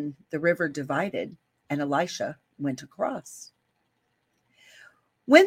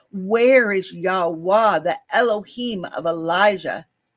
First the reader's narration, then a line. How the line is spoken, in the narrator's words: cried out